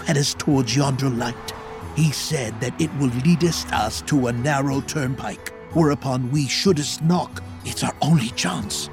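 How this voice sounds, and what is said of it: Old-fashioned archaic accent. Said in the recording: “your speech and your accent make it really evident that you have this back-in-the-day mindset”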